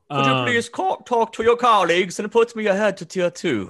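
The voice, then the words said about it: Put-on polite British accent. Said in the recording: “What's wrong with your voice? ... Is that your British polite accent? It was good. That was really good.”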